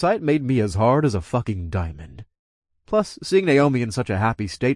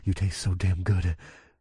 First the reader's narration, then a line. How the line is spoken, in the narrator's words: I whispered